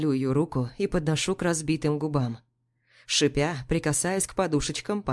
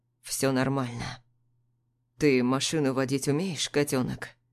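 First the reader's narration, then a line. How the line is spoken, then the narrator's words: Tired, smiling. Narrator (Russian): Устало улыбаюсь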